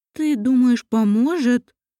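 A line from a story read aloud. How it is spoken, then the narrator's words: Said uncertainly. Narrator (Russian): неуверенно произнесла Мариэль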